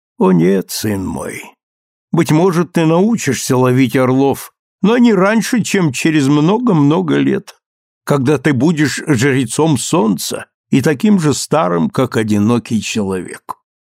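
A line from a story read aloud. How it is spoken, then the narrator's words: Gentle, indulgent mother. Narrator (Russian): Мать улыбнулась мне ласково и снисходительно, как улыбаются ребенку, и ответила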